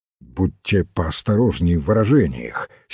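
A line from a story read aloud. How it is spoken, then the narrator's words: Angry. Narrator (Russian): сердито сказал Ройс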